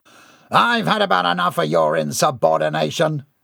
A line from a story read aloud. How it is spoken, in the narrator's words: Gerard barked